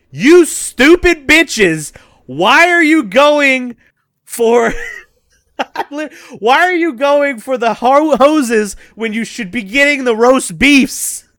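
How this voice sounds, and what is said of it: Yelling. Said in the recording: “I am yelling at my screen ... That's what I'm yelling at my fucking TV”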